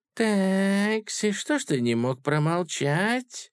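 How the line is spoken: Quiet speech. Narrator (Russian): тихо сказал император

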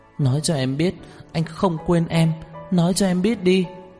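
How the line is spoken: Heartbroken crying. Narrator (Vietnamese): Đường Khả Hinh khóc lóc, đau lòng kêu lên

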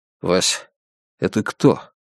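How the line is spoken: Quiet question. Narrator (Russian): тихо спросил он у Петрищенко

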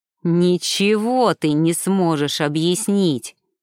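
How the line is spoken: Furious growl. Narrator (Russian): в бешенстве прорычал Ренат Ибрагимович

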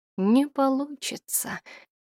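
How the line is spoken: Quiet, annoyed, to herself. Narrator (Russian): тихо проговорила для себя, поджимая губы от досады

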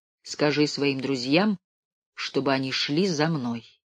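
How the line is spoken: Calm, broken German. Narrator (Russian): небольшого толстого человека, который на ломаном немецком языке спокойно говорил ей

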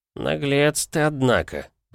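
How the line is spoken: Grumbling. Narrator (Russian): проворчал Альтеррус

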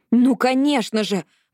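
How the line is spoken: Exclaiming. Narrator (Russian): воскликнула Робин

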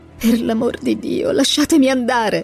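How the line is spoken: Pleading. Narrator (Italian): supplicò

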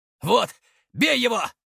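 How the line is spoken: Shouted. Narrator (Russian): закричал Игнат

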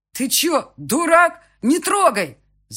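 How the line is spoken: Shouting. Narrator (Russian): заорал Андрей

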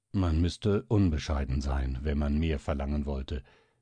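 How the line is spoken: Calm reply. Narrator (German): erwiderte der Famulus ruhig

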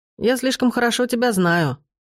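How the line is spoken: Snort. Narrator (Russian): фыркнул

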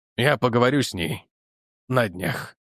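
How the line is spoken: Gloomy, major. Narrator (Russian): мрачно проговорил майор

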